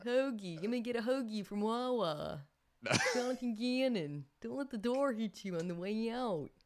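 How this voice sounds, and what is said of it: Put-on Philadelphia accent. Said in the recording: “The Philadelphia accent ... Nailed it.”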